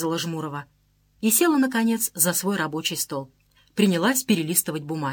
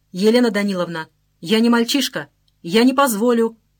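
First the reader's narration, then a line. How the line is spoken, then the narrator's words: Shouting. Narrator (Russian): закричал Стрельцов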